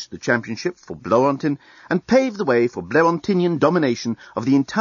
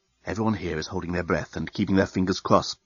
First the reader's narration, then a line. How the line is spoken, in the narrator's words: whispered the head reporter of the Bluontin News-Gathering Bureau into his invisible microphone